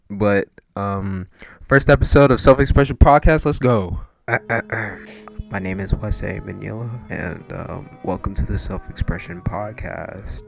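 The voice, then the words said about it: Whispering. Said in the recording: “This episode was recorded at 3 a.m. Sorry for the whispering,”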